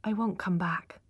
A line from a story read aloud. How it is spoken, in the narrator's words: said quietly